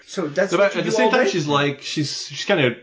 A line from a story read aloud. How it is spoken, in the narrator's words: she giggles